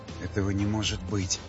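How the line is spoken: Whispering to himself. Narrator (Russian): шептал сам себе Васнецов

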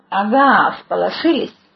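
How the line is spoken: Rude curt remark. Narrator (Russian): грубо бросил

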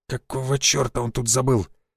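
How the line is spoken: Quiet muttered whisper. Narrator (Russian): Константин Львович тихонько шепнул себе под нос

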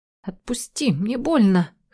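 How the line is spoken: Hoarse. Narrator (Russian): хриплю

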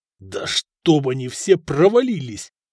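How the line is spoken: Growling. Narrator (Russian): прорычал Надир

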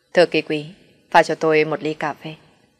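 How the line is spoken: Clear, cold command. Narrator (Vietnamese): Thanh âm trong trèo lạnh lùng phân phó nói

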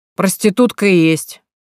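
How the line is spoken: Drunken, hoarse voice. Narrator (Russian): пьяно подтвердил пропитым голосом собутыльник Гришки неопределенного возраста

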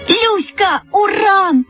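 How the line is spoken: Shouting in unison. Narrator (Russian): закричали мы в один голос

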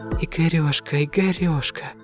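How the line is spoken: Whispering. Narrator (Russian): зашептала Лена

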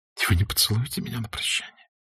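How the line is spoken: Careful hushed whisper. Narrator (Russian): прошептала она, заботясь о том, чтобы никто в доме не услышал

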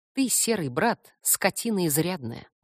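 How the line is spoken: Grim remark. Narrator (Russian): мрачно заметила

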